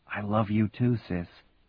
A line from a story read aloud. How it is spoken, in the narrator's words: Grinning, Marty whispered back